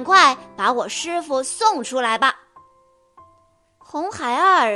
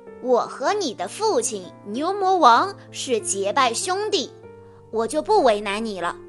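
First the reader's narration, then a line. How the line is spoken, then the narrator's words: Smiling. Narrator (Chinese): 孙悟空笑着说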